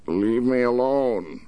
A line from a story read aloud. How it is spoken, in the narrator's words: he shouted, but the shout came out a whine, low-pitched and weak